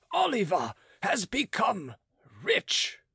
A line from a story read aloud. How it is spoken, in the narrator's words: cried he